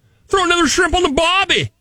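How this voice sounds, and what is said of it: Attempted Australian accent. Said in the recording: “The sexiest accent, according to this poll, is Australian. ... That wasn't even close.”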